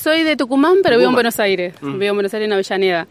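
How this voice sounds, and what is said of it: Regional Argentine accent, different tonada. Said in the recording (Spanish): “¿Tenés otra tonada?”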